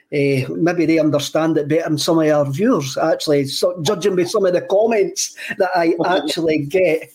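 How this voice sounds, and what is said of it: Thick Scottish Stirlingshire accent. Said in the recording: “a thick Stirlingshire accent ... my Stirling accent”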